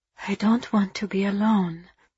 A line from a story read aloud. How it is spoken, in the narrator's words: she murmured, hating herself for her vulnerability